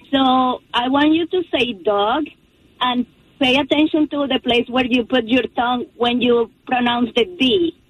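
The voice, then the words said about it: Foreign accent. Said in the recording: “Ooh, I love the accent.”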